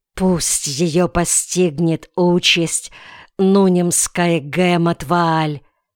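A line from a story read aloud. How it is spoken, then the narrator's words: Angry mutter. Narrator (Russian): он злобно пробормотал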